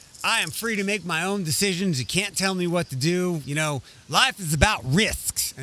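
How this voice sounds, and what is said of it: Mocking dumb-sounding put-on accent. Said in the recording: “always a little dumb accent like that”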